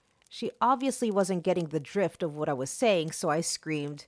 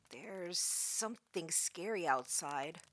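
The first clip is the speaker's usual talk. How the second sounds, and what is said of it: Shaken, frightened voice. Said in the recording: “in a shaken voice”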